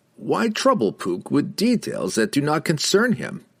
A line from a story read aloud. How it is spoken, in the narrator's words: The wizard laughed